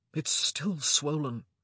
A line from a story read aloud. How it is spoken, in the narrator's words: he muttered